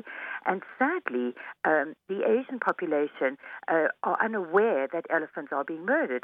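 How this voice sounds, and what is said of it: British-sounding accent. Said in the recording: “So you have a British accent.”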